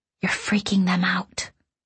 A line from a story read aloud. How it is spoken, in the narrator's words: Kay whispered